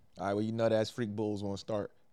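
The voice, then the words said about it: Put-on Philadelphia accent. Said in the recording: “a Philadelphia accent. You can talk like anybody you think is from Philadelphia”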